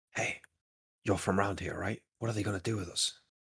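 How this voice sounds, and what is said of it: Whispering. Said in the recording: “whisper”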